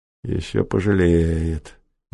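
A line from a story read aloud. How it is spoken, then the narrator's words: Gloomy. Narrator (Russian): мрачно сказал прокурор Успенский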